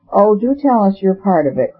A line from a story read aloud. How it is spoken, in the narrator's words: cried Barbara Vane, whose air of sunny sleepiness seemed in some vague degree to have fallen from her